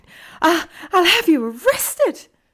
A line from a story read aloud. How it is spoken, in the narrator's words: Umbridge screeched